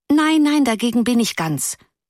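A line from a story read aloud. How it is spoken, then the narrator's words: Pitying call. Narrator (German): rief eine andere in mitleidigem Ton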